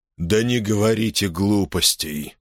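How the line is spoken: Weary, curt. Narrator (Russian): устало бросил Сьютейн

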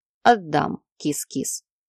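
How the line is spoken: Lazy promise. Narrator (Russian): лениво пообещал он

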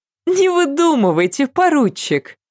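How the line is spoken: Tossed off casually, laughing. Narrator (Russian): мимоходом бросила смеясь

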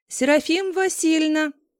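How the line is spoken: Loud shout. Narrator (Russian): громко крикнул

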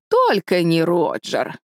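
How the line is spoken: Gloomy pronouncement. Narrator (Russian): мрачно изрекла тетя Бекки

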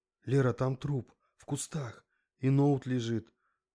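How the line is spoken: Agitated. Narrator (Russian): Взволнованно объяснил он

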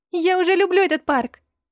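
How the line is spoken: Laughing. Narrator (Russian): Брин засмеялся

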